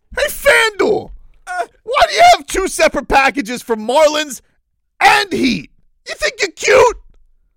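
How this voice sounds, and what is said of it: Yelling, loud shouted voice. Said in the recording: “why am I yelling”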